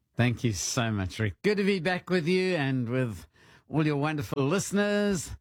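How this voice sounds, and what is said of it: Speaks with a foreign accent. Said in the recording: “I'm back with my accent. I brought it back with me.”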